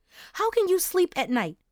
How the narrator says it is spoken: Mom screamed

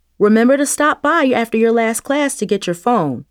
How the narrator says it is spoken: Miss Sherman called out to her

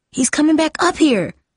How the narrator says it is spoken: Jamie said nervously

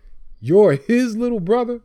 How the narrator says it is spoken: He said with a mean laugh

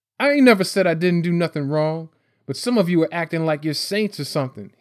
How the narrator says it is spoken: he snapped

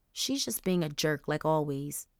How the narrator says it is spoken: Angel mumbled

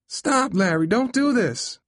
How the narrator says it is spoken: Mom screamed

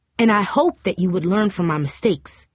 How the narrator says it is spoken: Mom answered sharply

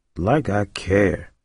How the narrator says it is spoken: Roiland muttered

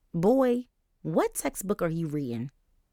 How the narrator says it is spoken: LaDonna asked with a snort

